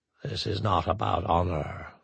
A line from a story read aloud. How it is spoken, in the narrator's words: Zarnok said quietly